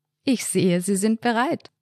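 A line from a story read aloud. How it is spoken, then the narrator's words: Warm joking laugh. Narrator (German): Albrecht lachte ein warmes Lachen und sagte scherzend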